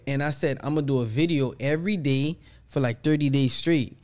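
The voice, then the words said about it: Haitian accent. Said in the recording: “I'm Haitian, they hear an accent”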